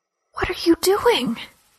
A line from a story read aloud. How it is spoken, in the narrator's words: She asked in an agonized whisper